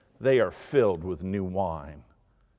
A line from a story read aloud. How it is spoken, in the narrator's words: others sneered and said